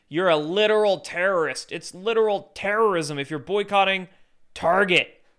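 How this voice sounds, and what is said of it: Australian accent. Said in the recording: “This Aussie guy here, I think he's Australian. Listen to his accent.”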